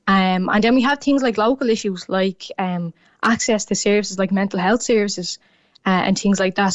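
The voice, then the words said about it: Dublin Irish accent. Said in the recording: “my Dublin accent”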